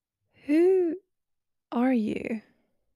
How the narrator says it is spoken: I asked slowly

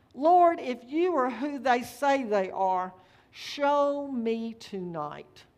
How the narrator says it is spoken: cried out

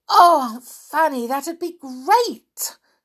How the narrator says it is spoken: cried Anne

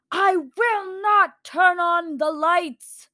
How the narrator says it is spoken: the dream keeper bellowed

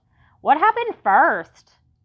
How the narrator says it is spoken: Imogene hollered at my mother

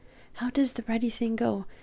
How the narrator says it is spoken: I murmured exasperatedly

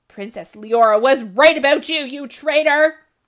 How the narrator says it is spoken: the king thundered

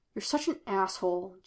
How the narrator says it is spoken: Jim muttered

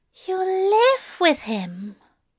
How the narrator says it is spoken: he breathed

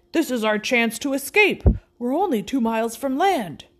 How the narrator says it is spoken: Ned exclaimed excitedly

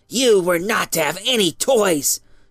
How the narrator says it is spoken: she said in a hissing voice

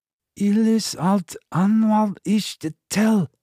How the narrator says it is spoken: spat the words out more slowly

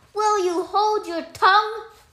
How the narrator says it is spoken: cried the cat

